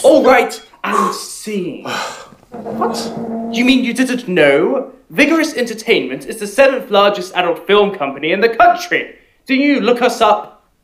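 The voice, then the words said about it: British accent. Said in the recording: “But your accent... We British”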